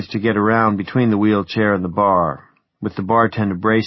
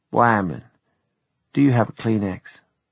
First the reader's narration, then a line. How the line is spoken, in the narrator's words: she fetched a sigh and said